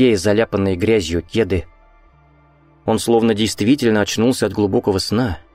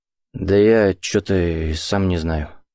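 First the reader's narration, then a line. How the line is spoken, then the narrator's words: Forced out reluctantly. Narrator (Russian): выдавил он наконец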